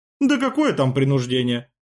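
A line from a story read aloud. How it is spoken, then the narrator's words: Laughing. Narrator (Russian): рассмеялся Сергей Ильич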